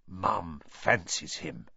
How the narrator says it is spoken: said Fred in a very audible whisper

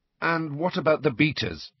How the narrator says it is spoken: he asked, trying to keep his voice even

